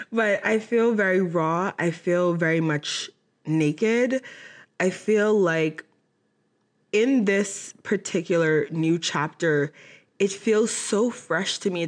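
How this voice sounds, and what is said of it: Emotional, on the verge of tears. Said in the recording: “I'm getting emotional. Why do I always get emotional”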